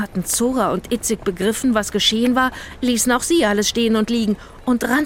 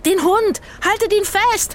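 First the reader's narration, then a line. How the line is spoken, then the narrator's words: Shouting across a square. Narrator (German): schrie Rufus über den Platz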